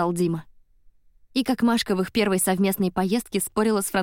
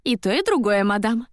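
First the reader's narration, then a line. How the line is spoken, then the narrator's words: Laughing along. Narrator (Russian): смеялась вместе с ней Машка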